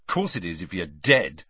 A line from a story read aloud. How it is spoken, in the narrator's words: snapped Ron